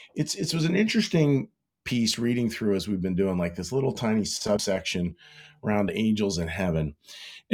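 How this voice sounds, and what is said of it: Sick, strained-sounding voice. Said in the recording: “You probably can hear from my voice, battling through some stuff”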